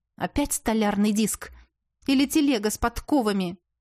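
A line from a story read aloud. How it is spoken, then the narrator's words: Angry question. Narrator (Russian): сердито спросила я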